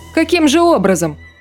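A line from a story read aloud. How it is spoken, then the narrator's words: Snapping retort. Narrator (Russian): огрызнулся Саша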